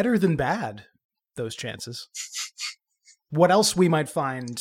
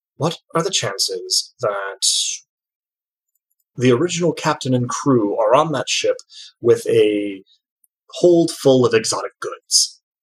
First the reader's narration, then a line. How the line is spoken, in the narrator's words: Uncle Bailey turns back to you with a sigh and says